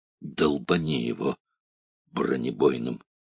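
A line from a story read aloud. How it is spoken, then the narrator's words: Muffled voice. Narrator (Russian): глухо сказал Кудрявцев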